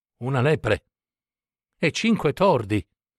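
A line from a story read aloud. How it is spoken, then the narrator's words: Terrified exclamation. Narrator (Italian): esclamò atterrito Don Diego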